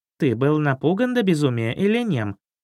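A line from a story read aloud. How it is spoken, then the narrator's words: Snide, kitten. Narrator (Russian): ехидно спросил котенок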